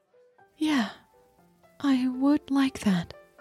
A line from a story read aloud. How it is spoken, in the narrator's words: she said very softly